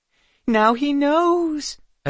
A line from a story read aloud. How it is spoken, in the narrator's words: a few fairies exclaimed